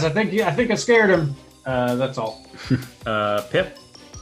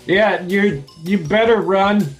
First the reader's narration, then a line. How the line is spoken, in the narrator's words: I yell